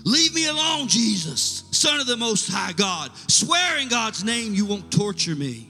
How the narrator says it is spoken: screaming out at the top of his lungs

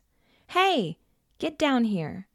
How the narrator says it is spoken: shouted angrily

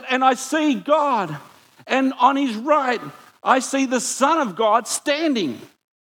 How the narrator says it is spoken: Stephen yells out

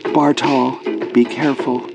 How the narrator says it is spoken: she whispered, then stopped

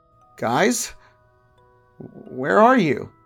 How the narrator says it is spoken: called out, my voice trembling

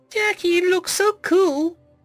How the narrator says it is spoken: Org chirped

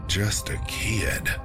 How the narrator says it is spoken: David sighed

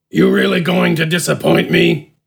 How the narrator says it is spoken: Smidgen grunted

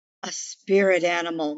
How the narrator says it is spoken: Mother whispered

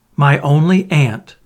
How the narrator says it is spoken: exclaimed

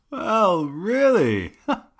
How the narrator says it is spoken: He cried

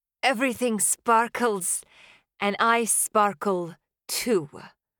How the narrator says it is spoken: I slurred

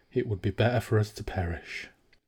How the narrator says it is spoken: said softly

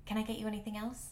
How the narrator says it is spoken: asked

